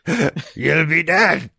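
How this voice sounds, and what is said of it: Impression of Star Wars character. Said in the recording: “Star Wars A New Hope ... I love doing that voice. I don't even know if it's spot on, but it feels like it is to me”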